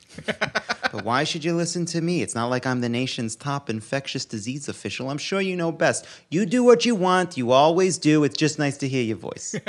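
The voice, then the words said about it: Jewish mother character voice. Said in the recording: “here's my Jewish mom voice.”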